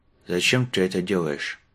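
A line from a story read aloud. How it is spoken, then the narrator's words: Gloomy question. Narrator (Russian): спросил он, мрачно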